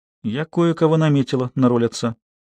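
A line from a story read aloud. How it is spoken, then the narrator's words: Quiet, composed. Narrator (Russian): она быстро пришла в себя и тихо сказала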